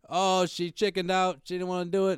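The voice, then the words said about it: Poor put-on Australian accent. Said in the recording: “That's my Australian accent. ... That's Jamaican.”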